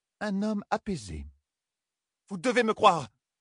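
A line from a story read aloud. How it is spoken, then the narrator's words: Exclaiming. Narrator (French): s'écria Ninevée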